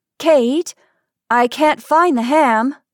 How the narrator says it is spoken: I called out

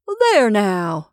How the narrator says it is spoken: triumphantly cried the squat man

